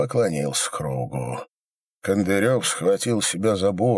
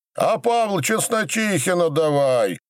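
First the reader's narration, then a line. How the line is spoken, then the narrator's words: Crowd shouting. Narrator (Russian): закричали на кругу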